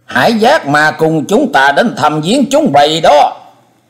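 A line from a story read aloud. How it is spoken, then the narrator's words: Shrill echoing voice. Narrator (Vietnamese): Giọng nói the thé vang lên giữa trời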